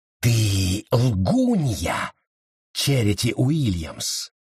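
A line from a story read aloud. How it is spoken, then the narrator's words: Hissed. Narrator (Russian): прошипела она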